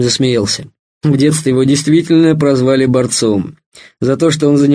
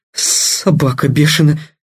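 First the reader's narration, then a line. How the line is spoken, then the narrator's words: Breathless exhale, reviving. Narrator (Russian): выдохнул Кеша, оживая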